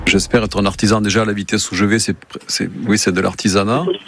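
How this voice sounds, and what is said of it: Slight regional French accent. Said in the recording (French): “Y aurait-il un léger indice dans l'accent, peut-être ? ... Un quelque peu, hein. ... Un petit peu.”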